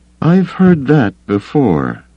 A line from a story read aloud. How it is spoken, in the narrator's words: Leia sighed